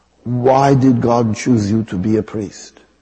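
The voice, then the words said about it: Imitating Mother Teresa's accent. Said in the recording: “I have to use the accent”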